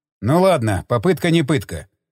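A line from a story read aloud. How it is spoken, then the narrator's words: Snorting. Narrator (Russian): хмыкнул Стечкин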